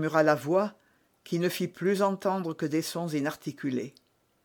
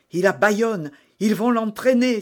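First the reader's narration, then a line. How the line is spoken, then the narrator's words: Exclaiming. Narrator (French): s'écria d'Artagnan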